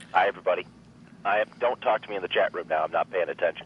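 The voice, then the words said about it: Congested voice from a cold. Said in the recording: “I apologize for my voice. I'm not trying actually intentionally to do a funny voice this time. ... I got a cold.”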